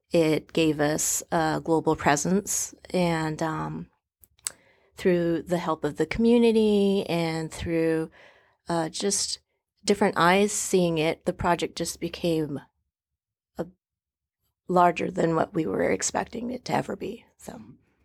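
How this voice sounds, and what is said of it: Strained, fading voice. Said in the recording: “Sorry, I'm losing my voice.”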